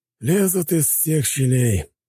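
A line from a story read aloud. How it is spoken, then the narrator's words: Sighing. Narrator (Russian): вздохнул Яковлев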